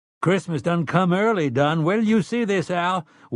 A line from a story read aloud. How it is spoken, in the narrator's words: triumphantly